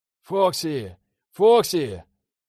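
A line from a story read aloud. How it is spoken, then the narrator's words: Yell. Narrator (Russian): заорал я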